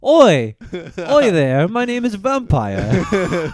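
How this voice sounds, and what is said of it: Put-on British accent. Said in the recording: “let me do my Harry Potter accent”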